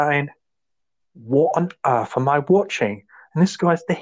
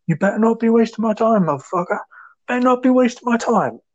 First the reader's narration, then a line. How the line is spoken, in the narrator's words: shouts